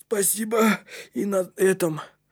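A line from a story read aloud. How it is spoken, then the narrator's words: Wheezing whip voice. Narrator (Russian): просипел кнут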